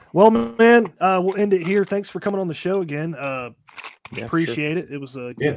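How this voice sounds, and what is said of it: Raspy voice. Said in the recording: “raspy voice”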